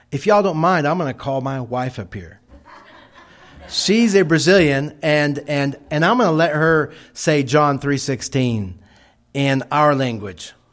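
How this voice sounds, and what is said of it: Texas accent. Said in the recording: “I still have a Texas accent.”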